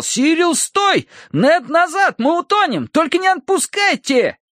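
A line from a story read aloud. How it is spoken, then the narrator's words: Shouting. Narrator (Russian): Терренс кричал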